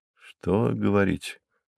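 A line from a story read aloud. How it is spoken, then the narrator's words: Muttered. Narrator (Russian): пробормотал я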